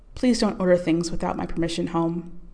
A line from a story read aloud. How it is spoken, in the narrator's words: Teresa said